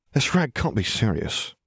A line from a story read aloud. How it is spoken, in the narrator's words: Ron muttered